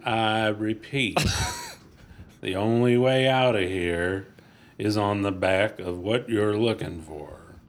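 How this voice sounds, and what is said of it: Spot-on impression of his father. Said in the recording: “You do a spot-on impersonation of your father. Thank you. It is fucking brilliant.”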